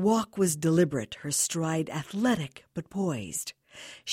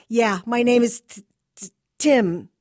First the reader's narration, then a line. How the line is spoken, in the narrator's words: stuttered the nervous kid